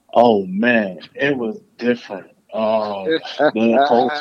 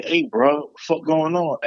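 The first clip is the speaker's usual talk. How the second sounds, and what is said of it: Mocking Atlanta accent. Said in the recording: “I make fun of little Atlanta accents”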